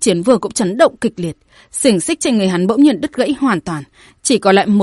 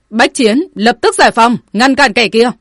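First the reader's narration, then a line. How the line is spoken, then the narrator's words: Sudden loud shout. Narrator (Vietnamese): hắn chợt quát lớn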